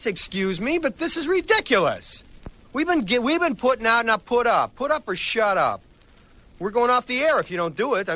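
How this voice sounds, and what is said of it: Yelling angrily. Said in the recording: “I'm sorry for yelling.”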